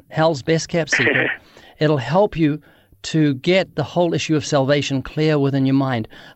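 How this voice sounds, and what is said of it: Speaker's own accent. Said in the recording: “My accent.”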